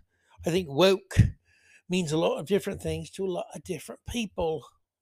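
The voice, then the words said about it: Put-on British accent. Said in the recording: “Why the hell I go to a British accent at the end of that?”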